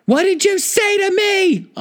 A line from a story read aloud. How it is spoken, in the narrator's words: Aubrey yelled through the curtain